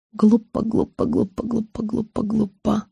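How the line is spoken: Barely audible repetition. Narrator (Russian): я начала едва слышно повторять

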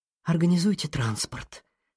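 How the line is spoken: Hissing headmistress. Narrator (Russian): прошипела директор школы

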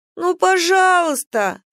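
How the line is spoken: Whimpering, whiny. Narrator (Russian): захныкал Минджи, когда Неджи схватил его за пояс

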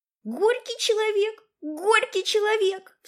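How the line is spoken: Sudden cry. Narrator (Russian): вскрикнула Венирка, едва не споткнувшись в сугроб

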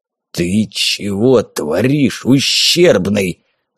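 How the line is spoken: Hissing, suddenly unkind. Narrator (Russian): зашипел он, его доброту как коров языком слизнула

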